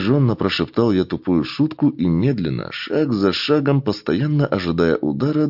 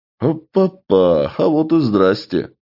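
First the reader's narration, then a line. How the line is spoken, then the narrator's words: Smirking grunt. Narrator (Russian): хмыкнул я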